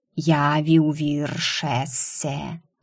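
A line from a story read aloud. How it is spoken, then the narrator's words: Snake's hiss. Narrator (Russian): прошипел змей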